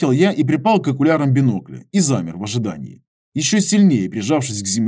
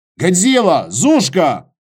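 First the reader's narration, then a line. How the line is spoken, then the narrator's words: Shouted. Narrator (Russian): крикнул Костя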